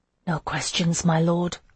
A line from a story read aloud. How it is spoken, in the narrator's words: I whispered, my head spinning